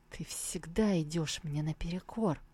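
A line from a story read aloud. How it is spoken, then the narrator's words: Whisper. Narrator (Russian): Тантайцзинь прошептал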